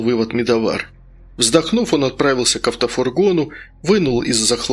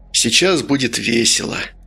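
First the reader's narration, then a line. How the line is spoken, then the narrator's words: Through gritted teeth. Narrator (Russian): процедил Медовар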